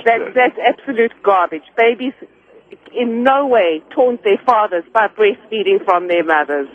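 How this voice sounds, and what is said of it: South African accent. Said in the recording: “you have a delightful accent. ... I'm from South Africa.”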